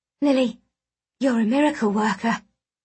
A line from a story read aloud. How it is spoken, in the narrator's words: I breathed